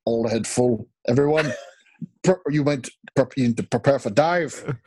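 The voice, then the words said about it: Scottish-accented imitation of another person's voice. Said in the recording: “Sean Connery is the best one ... Doing voices now ... It's Scottish”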